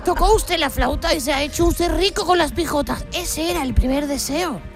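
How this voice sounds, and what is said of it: Put-on Cádiz Andalusian accent. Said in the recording (Spanish): “aquí en Cádiz cogió el acento. El acento.”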